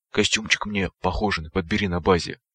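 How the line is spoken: Whisper. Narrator (Russian): прошептал

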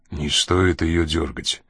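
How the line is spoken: Quiet speech. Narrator (Russian): тихо проговорил Коридон

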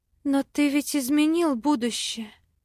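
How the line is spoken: Sad. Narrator (Russian): Грустно заметила я

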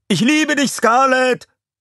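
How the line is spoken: Shouted by several. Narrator (German): manche schrien

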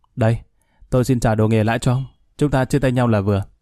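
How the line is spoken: Smiling. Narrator (Vietnamese): Khanh mỉm cười nói

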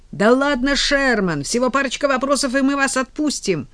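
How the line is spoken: Shrieking girl. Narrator (Russian): Сзади все еще вопила и взвизгивала та девица

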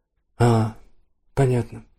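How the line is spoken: Warm, calm, smiling. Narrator (Russian): проговорила Дженна и улыбнулась так, как никогда раньше не улыбалась, тепло, спокойно

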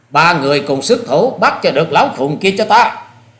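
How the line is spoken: Loud shout. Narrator (Vietnamese): Hà Xà Tiên Tử quát lớn

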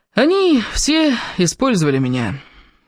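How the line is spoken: Agonized groan. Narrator (Russian): Кевин мучительно застонал

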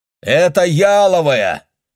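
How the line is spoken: Shout. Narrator (Russian): прокричал он

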